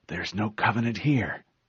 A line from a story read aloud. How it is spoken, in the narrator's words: one of them whispered